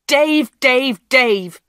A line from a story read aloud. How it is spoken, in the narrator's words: Peter shouted